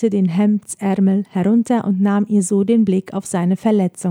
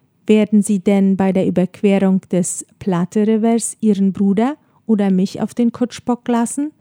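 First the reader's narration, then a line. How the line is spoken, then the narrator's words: Plain question. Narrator (German): fragte er schließlich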